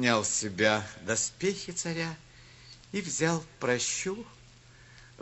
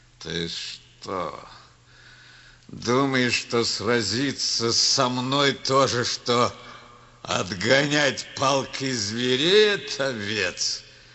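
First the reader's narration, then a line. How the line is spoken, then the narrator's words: Growled. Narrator (Russian): прорычал Голиаф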